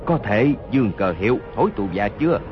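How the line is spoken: Low injured voice. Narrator (Vietnamese): Hốt Đô Hổ toàn thân giấy máu, hạ giọng nói

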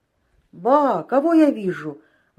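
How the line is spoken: Surprised exclamation. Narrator (Russian): воскликнул Авдахов

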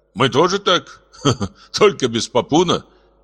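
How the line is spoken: Laughing. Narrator (Russian): засмеялся Дато

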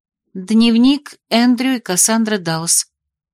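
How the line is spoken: Calm. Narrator (Russian): спокойно ответила Агата

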